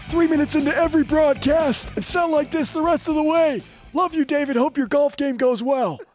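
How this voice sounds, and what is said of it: Hoarse, lost voice. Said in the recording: “lose my voice”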